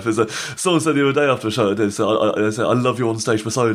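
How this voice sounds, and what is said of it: Speaks very fast. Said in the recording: “I do talk really fast. ... he does speak very fast. ... you use you speak very”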